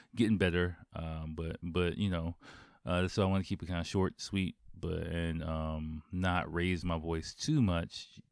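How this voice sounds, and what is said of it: Hoarse voice. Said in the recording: “I'm a little bit hoarse. ... just a bit of a sore throat”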